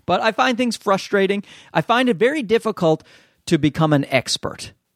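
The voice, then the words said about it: Newfoundland accent. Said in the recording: “my Newfie accent makes me pronounce things wrong sometimes”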